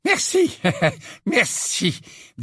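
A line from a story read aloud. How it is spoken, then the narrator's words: Breathless voice. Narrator (French): dit le professeur Flitwick d'une voix haletante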